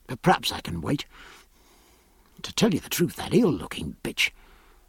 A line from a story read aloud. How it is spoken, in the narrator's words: lowering his voice